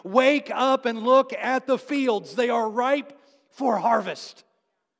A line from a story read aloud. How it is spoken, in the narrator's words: And Jesus is yelling